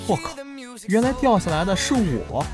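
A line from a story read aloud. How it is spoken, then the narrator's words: Quietly, lying down. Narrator (Chinese): 他趴在地上，小声地说了句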